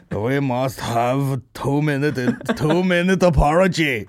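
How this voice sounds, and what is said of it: Put-on foreign accent. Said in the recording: “I don't know what accent that is.”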